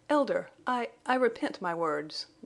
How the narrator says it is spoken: Jane faltered

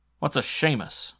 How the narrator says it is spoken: I mumbled

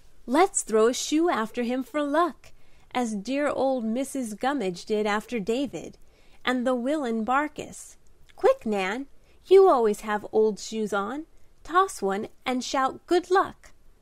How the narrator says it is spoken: cried Di with one of her eccentric inspirations

